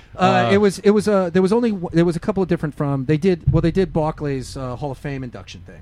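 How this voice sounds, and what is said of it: Strong regional American accent. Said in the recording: “My accent's pretty fucking stupid... I've never heard you with an accent so strong before.”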